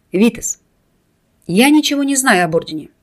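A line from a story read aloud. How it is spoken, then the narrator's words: Calm, woman. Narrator (Russian): спокойно произнесла она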